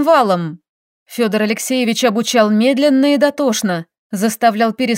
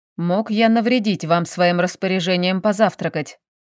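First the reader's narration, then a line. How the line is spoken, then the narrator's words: Calm question. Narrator (Russian): спокойно поинтересовался босс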